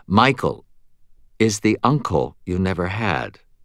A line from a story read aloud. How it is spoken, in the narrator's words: she said, her voice still calm but crisp